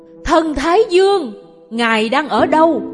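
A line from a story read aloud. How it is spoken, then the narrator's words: Lonely echoing shout. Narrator (Vietnamese): Tiếng hét của tôi lạc lõng dội vào giữa sa mạc mênh mông rồi tắt lịm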